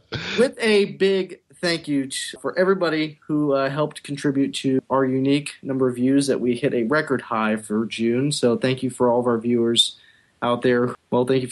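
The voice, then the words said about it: Announcer voice. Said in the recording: “announcer voice”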